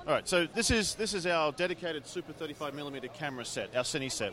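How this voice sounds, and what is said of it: Slight Australian accent. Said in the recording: “slight Australian accent”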